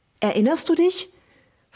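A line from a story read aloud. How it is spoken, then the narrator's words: Breathless question. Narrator (German): fragte Wilma atemlos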